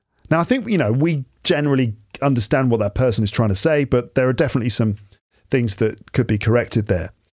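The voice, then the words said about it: British English accent. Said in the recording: “a fan of the British accent ... The posh vibes are great. I disagree with the posh thing, by the way. I'm not posh”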